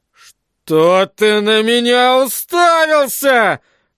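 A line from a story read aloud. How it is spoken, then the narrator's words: Growling. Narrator (Russian): прорычал он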